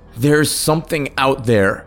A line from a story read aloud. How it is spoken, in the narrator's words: Derek cried